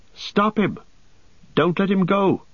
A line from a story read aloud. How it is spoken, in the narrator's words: cried Pippin